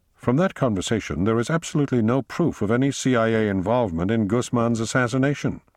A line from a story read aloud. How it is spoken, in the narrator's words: she said evenly